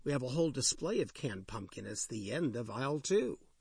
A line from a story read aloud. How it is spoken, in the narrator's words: chuckled